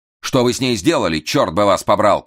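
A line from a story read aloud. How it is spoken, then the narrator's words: Shout. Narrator (Russian): крикнул ему Эраст Петрович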